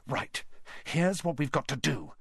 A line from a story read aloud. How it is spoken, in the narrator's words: he whispered urgently